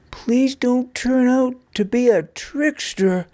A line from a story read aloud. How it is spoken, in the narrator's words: pleaded Nug